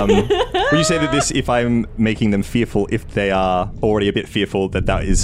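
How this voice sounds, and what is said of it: Usual voice. Nothing is said of it.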